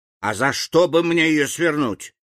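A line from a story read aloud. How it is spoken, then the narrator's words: Snapping, man. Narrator (Russian): огрызнулся Билан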